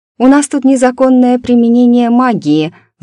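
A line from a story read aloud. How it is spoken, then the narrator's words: Sighing. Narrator (Russian): вздохнула я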